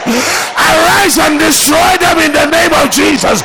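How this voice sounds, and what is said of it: Raised, loud preaching voice. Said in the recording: “as I raise my voice tonight”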